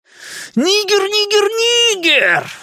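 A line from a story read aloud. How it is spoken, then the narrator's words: Ecstatic yelling. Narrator (Russian): вопил Генри, словно в религиозном экстазе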